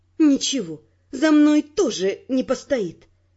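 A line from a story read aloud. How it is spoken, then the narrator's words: Through gritted teeth. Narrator (Russian): сказала я сквозь зубы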